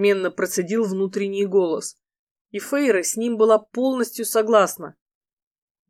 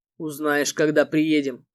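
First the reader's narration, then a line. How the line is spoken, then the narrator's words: Calm reply. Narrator (Russian): спокойно ответил Эрго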